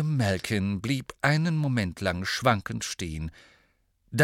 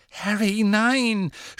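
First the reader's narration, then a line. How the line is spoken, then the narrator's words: Groaning. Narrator (German): stöhnte Hermine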